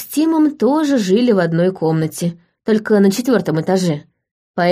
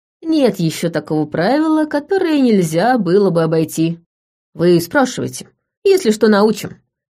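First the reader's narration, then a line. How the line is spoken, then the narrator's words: Cheerful agreement. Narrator (Russian): весело поддержал его Тим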